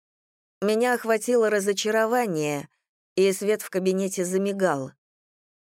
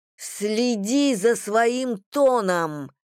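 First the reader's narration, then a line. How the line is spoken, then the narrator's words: Growl. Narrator (Russian): прорычала Бриша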